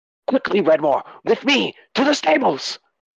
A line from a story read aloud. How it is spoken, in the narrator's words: he says, he shouts at you, commands you